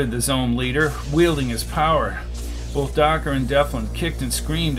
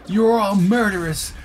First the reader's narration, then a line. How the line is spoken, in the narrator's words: she cried